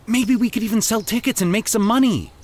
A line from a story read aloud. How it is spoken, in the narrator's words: Mitchell said excitedly